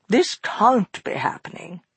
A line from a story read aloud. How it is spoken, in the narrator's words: she murmured